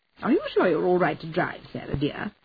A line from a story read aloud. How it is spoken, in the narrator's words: Eleanor asked, her voice heavy with disapproval